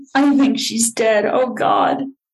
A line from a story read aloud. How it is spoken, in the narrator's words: Russ sobbing